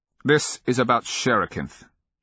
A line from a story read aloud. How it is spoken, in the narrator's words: he continued in the same indignant tones, his voice striking resonances that seemed to warble about her heart